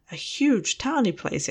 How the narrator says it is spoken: exclaimed Lothar

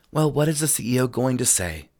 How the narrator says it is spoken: Monica muttered

